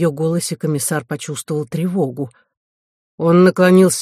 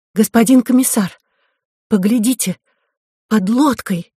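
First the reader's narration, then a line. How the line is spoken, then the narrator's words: Frightened voice. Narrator (Russian): Она произнесла испуганным голосом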